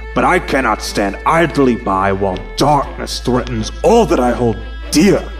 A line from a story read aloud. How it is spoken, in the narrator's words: the Grand Magus replied, his voice tinged with anger and sadness